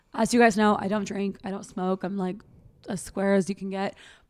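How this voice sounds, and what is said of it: Hoarse, partly lost voice. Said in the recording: “I've kind of lost my voice a little bit ... I'm struggling a little bit on the voice front”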